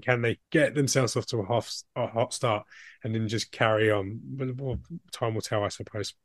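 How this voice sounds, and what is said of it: Strained voice, losing his voice. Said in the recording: “Sorry, I'm losing my voice here. But, do you know what? I ate before recording... I get like reflux and stuff”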